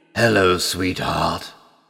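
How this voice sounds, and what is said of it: Deep growling wolf character voice. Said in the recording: “a deep voice replied ... growled”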